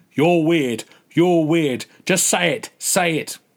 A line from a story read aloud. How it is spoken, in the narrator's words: a gorilla was battering an Alexa with a chromium egg beater shouting